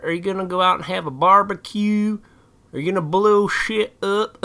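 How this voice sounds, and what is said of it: Put-on redneck accent. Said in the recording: “I just did like a redneck accent for that”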